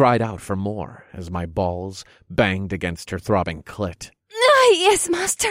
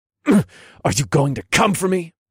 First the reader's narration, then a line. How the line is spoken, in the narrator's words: I grunted